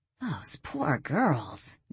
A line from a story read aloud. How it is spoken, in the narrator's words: Danielle muttered